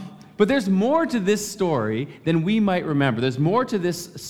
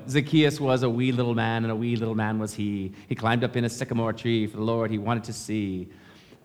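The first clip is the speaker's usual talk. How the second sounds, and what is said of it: Put-on Northern Irish accent. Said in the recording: “Someone here is from Northern Ireland, and they're like, "Stop trying to imitate my accent.”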